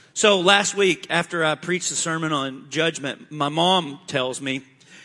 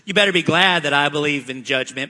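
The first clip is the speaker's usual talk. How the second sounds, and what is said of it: Imitating his mother's voice. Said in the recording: “That's my mom voice.”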